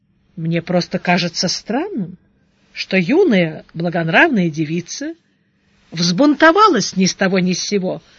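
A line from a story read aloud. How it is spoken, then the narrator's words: Calm reply, monk. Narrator (Russian): спокойно ответил монах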